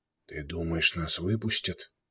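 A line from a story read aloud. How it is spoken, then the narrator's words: Whispered question. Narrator (Russian): шепотом спросил Юсур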